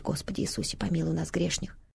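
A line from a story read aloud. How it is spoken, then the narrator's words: Muttering from a corner. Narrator (Russian): В одном углу бормочет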